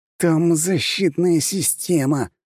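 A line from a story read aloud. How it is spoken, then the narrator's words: Through gritted teeth. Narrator (Russian): сквозь зубы процедил Джованни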